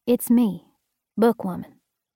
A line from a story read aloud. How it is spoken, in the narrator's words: I said softly